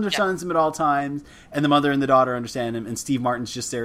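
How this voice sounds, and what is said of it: Usual voice. Nothing is said of it.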